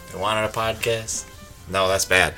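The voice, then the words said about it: Attempted Staten Island accent. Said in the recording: “what's a Staten Island accent? ... I'm not good at accents.”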